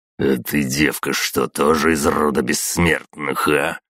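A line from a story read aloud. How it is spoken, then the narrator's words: Through gritted teeth. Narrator (Russian): процедил сквозь зубы Бугай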